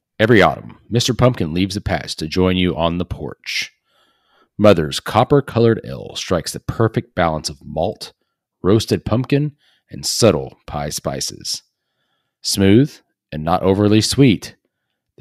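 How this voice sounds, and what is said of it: Announcer-style radio voice. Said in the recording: “in my best radio voice”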